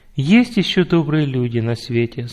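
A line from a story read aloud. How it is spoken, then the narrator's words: Plain. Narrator (Russian): сказала мама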